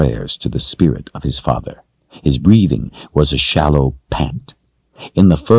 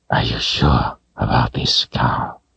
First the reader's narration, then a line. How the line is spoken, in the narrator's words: he asked hoarsely